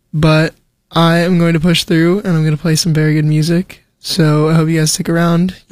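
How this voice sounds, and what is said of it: Voice a bit rough and off. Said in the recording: “my voice is a little bit messed up right now. I am recovering from an unfortunate illness”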